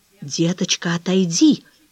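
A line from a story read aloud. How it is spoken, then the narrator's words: Whispered, dog's owner. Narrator (Russian): шепотом сказал хозяин собаки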